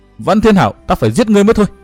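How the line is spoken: Ghost roaring. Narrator (Vietnamese): quỷ ảnh Quan Âm gầm hét nói

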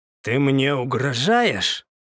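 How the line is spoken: Growl masking fear. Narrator (Russian): Рыкнул я на него, хотя внутри все заледенело

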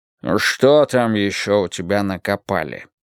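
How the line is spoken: Displeased grumble. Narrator (Russian): недовольно проворчал Брежнев

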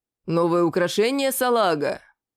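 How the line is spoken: Deep voice, grinning. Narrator (Russian): пробасил тот, ухмыляясь

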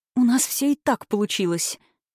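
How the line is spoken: Conspiratorial whisper. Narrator (Russian): заговорщицки прошептала Светлана

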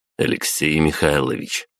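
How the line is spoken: Dry interruption. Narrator (Russian): сухо перебил его я

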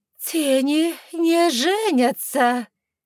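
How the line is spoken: Shocked gasp. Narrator (Russian): Еще более шокированно выдохнула эльфийка

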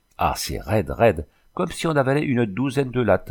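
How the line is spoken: Exclaimed. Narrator (French): s'écria-t-il

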